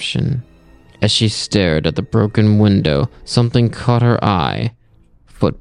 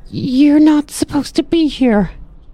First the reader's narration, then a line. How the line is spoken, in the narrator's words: Holly called out, her voice trembling